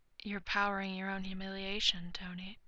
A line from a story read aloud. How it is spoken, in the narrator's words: Bruce whispers into his ear